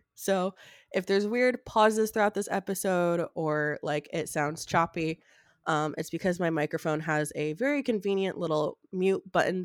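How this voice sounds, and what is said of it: Sick-sounding voice. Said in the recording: “in case you can't tell by my voice, I am sick.”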